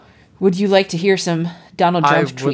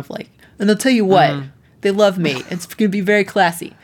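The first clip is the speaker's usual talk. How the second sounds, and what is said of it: Imitates another person's voice. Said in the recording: “I wish I could do a good Donald Trump impression, because it would be so much more fun if I could do this in the Donald Trump”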